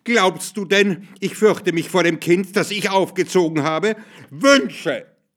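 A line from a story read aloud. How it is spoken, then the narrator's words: Loud female scream. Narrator (German): schrie sie laut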